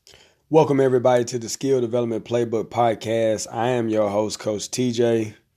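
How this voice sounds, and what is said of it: Slightly raspy voice. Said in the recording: “I've been a little bit under the weather, so my voice is a little raspy.”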